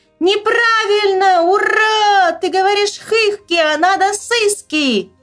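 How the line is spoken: Very loud girl's shout. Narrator (Russian): Аленка как закричит, одна громче нас двоих

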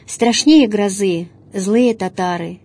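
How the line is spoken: Heavy male sigh. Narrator (Russian): Тяжко вздохнул он

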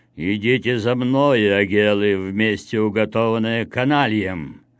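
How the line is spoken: Dead executioner's sepulchral voice. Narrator (Russian): умерший в прошлом году экзекутор, проговори он им гробовым голосом

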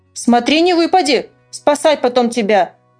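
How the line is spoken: Stern remark. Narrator (Russian): строго заметил Санька

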